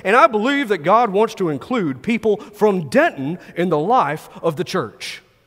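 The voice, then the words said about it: Impression of a preacher's voice. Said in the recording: “this is a good Stan impersonation”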